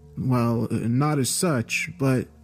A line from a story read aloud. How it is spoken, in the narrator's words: stuttered my reply, saying